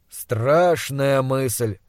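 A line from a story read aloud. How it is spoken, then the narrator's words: Snorting. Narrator (Russian): хмыкнул Пельт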